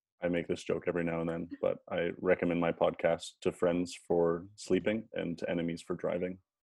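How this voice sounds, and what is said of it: Monotone, calm low-key voice. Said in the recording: “You'll be as monotone as I am ... you have a good podcast voice ... you definitely have a very nice calming”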